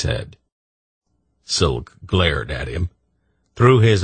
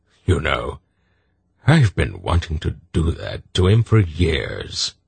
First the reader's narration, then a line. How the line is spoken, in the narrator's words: the old man chuckled